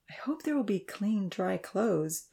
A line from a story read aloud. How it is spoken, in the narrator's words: Benita said wistfully